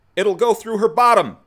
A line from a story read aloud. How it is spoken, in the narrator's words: shouts the second officer